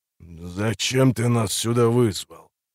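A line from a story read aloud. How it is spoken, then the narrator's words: Hoarse heavy voice. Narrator (Russian): Голосом этого храмовника можно было молоть зерно, хриплый и тяжелый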